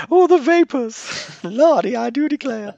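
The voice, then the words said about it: Scarlett O'Hara-style Southern belle voice. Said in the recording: “Just a hint of Scarlett O'Hara ... which I think is how Jon Stewart does Lindsey Graham”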